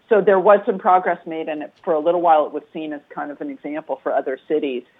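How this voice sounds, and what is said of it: New Jersey accent. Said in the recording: “You can hear the New Jersey accent.”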